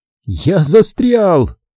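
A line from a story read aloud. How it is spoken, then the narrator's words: Shouted. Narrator (Russian): выкрикнул я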